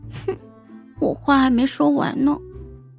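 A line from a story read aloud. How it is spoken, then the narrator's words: Small pouting teary voice. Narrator (Chinese): 孟婉婉 鼓着腮，眼睛水汪汪的 小声道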